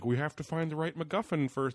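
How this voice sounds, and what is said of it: Imitates another person's voice. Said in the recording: “It's my George Lucas impression.”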